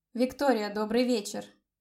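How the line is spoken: Dry voice. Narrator (Russian): Сухо прозвучал его голос

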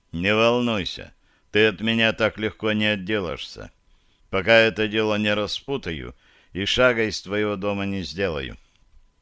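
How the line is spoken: Gloomy grumble. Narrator (Russian): мрачно буркнул

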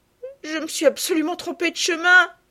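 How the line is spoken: Sobbing cry. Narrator (French): s'écria Sophie en sanglotant

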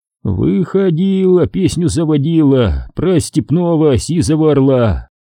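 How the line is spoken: Hoarse group singing. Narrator (Russian): бойцы начали подтягивать сиплыми и хриплыми голосами

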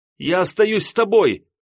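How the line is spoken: Ringing offended shout. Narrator (Russian): Звонко, с обидой в голосе, буквально прокричала Надя

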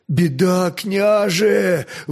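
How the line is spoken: Breathless exhale. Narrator (Russian): выдохнул десятник Скрынь

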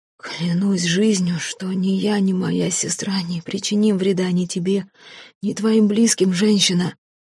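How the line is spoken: Sudden hoarse interruption. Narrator (Russian): прохрипел вдруг, перебивая ее брат девушки

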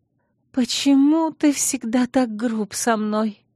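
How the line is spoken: Sobbing. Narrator (Russian): всхлипнула Наэла

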